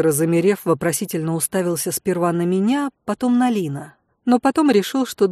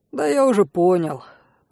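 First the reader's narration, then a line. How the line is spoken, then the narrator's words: Mock sigh. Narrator (Russian): притворно вздохнул Мире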